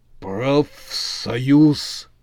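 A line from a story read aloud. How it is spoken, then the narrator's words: Foreman breathes out. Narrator (Russian): выдохнул бригадир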